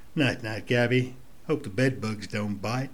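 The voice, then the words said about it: Put-on accent. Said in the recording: “apologies for the accent at the end”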